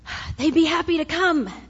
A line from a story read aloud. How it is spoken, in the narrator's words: Adika panted